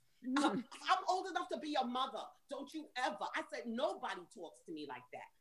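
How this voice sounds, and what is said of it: New York accent. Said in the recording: “This is a New York accent. I'm from New York”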